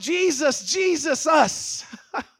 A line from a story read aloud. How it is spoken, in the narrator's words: they're shouting